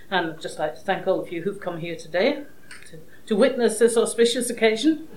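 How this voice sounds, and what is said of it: Scottish accent. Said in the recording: “I'm not that Manx born, as is obvious from my accent... I'm a Scot, I was born and brought up in Edinburgh”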